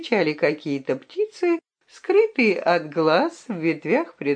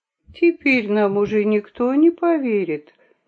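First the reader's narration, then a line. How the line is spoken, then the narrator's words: Sighing. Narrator (Russian): вздохнула Хитраска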